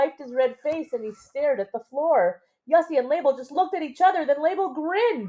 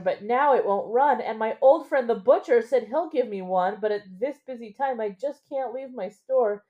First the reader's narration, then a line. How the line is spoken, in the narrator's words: wheezed the baker